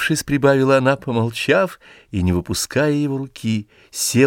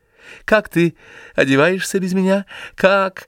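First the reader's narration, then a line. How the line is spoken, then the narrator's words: Strained, failed cheerfulness. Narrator (Russian): хотела она начать говорить просто и весело, но не могла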